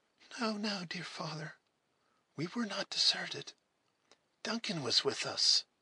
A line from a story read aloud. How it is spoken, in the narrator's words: Alice murmured in her soft, gentle voice